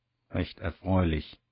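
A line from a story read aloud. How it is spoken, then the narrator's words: Murmured. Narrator (German): murmelt er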